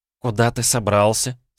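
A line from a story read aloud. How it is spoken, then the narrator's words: Dry question. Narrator (Russian): сухо спросила Софья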